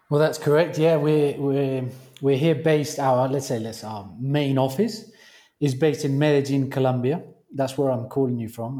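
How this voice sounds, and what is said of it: British accent. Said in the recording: “he does have a British accent”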